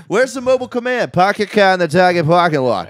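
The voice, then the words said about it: Imitated Boston accent. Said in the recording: “cops in this Boston accent telling other cops to pack your car in the Target parking lot”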